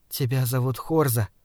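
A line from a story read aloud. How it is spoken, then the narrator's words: Soft. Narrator (Russian): мягко сказала она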